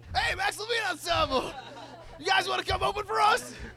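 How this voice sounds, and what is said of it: Imitates another person's voice, yelling. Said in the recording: “your impression ... he was probably yelling a lot more”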